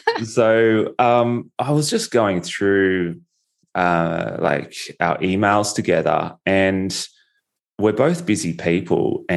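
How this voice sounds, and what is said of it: Australian accent. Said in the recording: “I don't know if they really understand my Australian accent”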